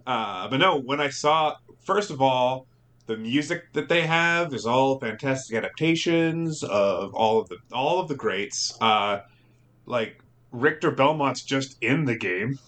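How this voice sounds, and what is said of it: Slurred speech. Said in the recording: “I'm dehydrated, ... I'm slurring my speech here.”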